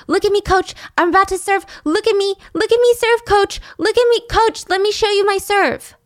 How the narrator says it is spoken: She would run off the court and yell

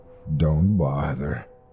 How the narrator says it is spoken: came the low rasp of a response

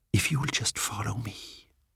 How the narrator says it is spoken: he whispered

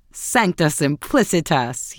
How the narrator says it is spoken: he exclaimed

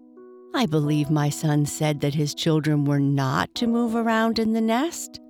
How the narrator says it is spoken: she said with a laugh

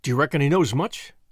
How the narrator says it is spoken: asked anxiously

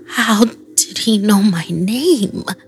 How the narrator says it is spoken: I mumbled

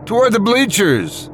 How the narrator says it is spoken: one man shouted excitedly

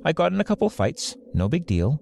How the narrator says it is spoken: she said

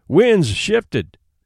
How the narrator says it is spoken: cried Hank vigorously

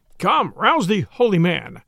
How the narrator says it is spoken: cried he

